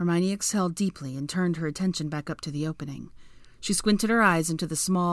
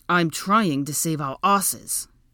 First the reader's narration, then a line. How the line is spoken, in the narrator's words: Draco snapped at her